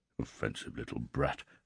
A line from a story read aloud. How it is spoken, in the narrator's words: Magnate coloured, gasped, muttered